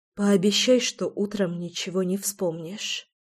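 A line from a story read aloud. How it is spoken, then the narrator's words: Quiet request. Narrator (Russian): тихо попросила я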